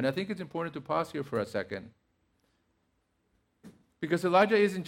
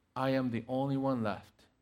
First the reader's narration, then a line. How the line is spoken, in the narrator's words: he says